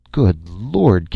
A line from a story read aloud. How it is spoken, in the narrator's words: Kent exclaimed